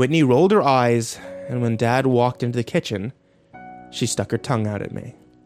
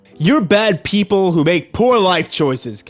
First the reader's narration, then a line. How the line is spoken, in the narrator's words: yelled